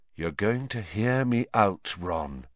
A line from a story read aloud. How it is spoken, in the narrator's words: he said quietly